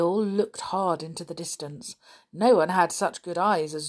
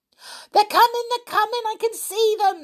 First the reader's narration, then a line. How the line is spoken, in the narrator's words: suddenly yelled George